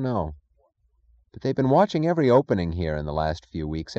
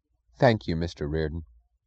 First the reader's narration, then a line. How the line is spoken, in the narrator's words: he said, his voice solemn and low